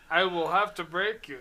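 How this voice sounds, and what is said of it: Poor put-on Russian accent. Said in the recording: “I just got to do it a Russian accent. ... It sounds like your German accent. You just fuck it up everywhere now. ... I'm not the accent guy.”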